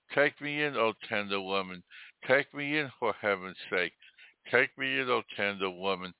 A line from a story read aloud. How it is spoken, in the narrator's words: sighed the snake